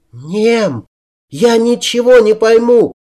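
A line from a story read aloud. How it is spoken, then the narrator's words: Muffled shout under sack. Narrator (Russian): Вновь закричала она впустую, вертя головой, на которую был накинут мешок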